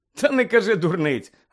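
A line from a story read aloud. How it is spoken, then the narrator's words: Laughing. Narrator (Ukrainian): розсміявся Рон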